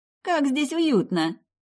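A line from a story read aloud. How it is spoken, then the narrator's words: Cheerful. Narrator (Russian): весело проговорила Мэрил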